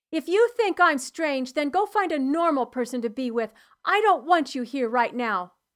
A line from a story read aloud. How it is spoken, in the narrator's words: I snapped